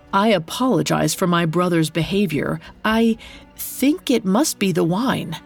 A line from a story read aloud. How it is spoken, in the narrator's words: Pholos timidly approached the king's table and said